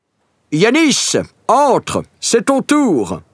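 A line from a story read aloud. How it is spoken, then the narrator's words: Director shouting from afar. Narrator (French): crie le metteur en scène depuis la première rangée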